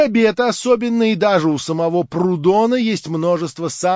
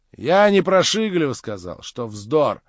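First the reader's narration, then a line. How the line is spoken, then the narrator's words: Mumbled. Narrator (Russian): промямлил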